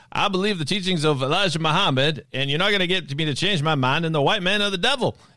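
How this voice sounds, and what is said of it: Poor imitation of another person's voice. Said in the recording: “I'm doing a horrible Muhammad Ali imitation.”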